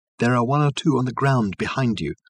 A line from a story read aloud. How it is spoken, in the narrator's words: called Reg softly